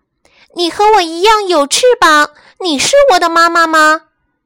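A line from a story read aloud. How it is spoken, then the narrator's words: Loudly. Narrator (Chinese): 企鹅太太，她大声地说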